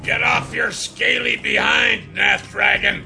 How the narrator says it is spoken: Brenwar roared

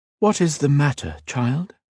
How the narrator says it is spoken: Cat gasped

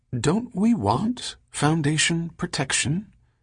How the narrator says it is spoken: said Pellerat softly

